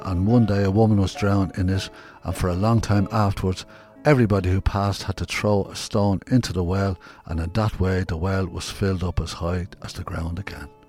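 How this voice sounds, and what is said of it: Dublin accent. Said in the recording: “I hope you understand my Dublin accent.”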